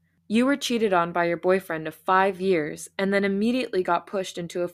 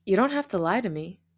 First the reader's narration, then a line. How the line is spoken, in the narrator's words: Mingyu said with a sigh